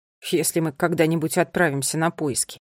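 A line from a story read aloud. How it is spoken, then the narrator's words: Grumbled. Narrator (Russian): проворчал Неллио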